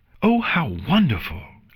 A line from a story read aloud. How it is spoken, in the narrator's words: Luna exclaimed loudly